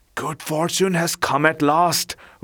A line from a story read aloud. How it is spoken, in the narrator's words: whispered Blackfoot the dog to Whitehead the cat